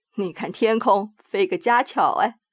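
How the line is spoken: Joking. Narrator (Chinese): 遇到了小孩子，每每喜欢开个玩笑，说

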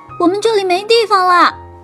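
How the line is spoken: Shouting in unison. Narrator (Chinese): 大树、小树一起喊道

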